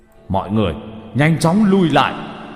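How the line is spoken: Loud voice. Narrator (Vietnamese): Tuyết Ma lớn tiếng

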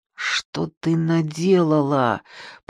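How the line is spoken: Through clenched teeth. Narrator (Russian): процедил сквозь стиснутые зубы

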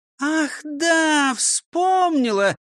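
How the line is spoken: Exclaiming. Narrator (Russian): воскликнула Фрёкинсталь

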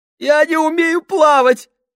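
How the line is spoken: Sobbing. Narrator (Russian): всхлипнул Сольц

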